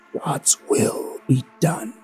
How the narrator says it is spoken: whispered so that only I could hear

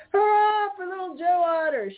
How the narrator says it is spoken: shouted Blacky the Crow

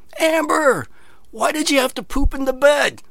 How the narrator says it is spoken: you hear this lady way off in the distance yelling

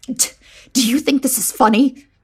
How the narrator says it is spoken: I hissed

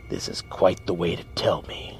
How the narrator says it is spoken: Jing sneered

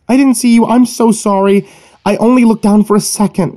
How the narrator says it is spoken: pleaded

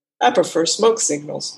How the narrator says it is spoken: Walker said

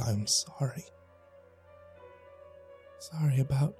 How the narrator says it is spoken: whispered into her ear

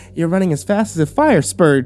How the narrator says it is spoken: she exclaimed

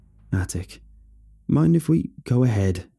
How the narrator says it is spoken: I said

